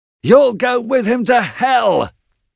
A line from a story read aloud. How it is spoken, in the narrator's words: roared Heathcliff